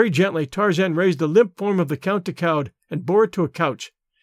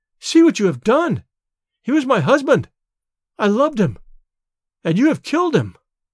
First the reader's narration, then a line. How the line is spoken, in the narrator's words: she cried